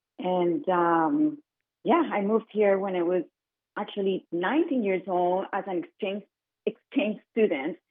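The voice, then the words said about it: Colombian-accented English. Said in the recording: “where's your beautiful accent from ... I'm from Colombia. I'm originally from Colombia.”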